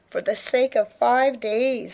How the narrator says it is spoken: Leanne moaned

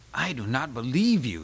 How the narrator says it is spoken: Sean gasped

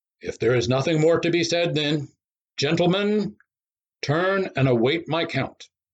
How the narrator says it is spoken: With a sympathetic glance at Forrester, the referee called out

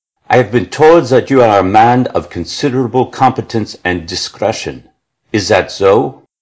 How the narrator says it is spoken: he said in a German accent

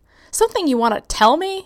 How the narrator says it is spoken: snapped

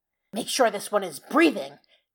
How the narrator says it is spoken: Cuz hissed

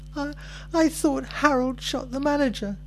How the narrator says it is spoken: I sobbed

